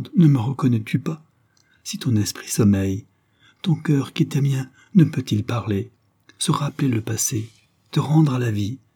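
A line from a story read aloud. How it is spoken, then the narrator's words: Cried out, count. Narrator (French): s'écria le comte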